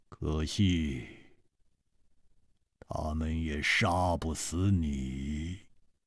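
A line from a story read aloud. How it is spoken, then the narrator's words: Cold voice. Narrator (Chinese): 他的声音冰冷，接着说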